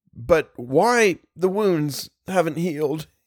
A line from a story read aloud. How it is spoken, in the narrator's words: he sobbed